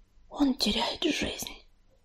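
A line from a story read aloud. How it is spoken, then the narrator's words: Whisper. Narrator (Russian): прошептала листвичка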